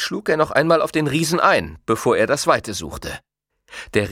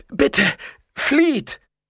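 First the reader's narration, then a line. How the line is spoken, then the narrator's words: Groaning, fearful call. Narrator (German): Der schlaksige Kerl stöhnte auf, rief ihm mit angstgeweiteten Augen zu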